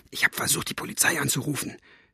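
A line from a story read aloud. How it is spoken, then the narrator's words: Whispered into ear. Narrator (German): wisperte ins Ohr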